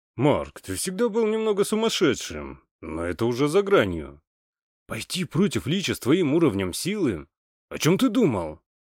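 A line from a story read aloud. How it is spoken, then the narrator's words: Exclaimed. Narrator (Russian): воскликнул Сильвио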